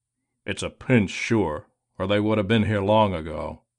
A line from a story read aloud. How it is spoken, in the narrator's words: he grumbled